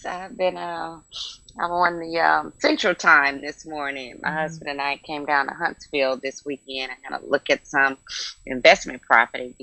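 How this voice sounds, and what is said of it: Slightly hoarse voice. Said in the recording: “I'm just a little bit hoarse.”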